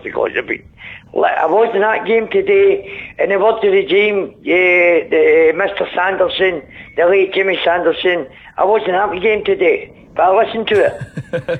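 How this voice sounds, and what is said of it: Hoarse voice. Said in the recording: “you're sounding a bit hoarse. ... I've actually been a bit hoarse”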